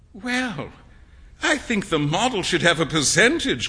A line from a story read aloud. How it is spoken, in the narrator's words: cried Hughie, laughing